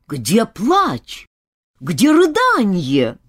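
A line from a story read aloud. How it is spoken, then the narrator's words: Wailing yell. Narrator (Russian): Гринч завопил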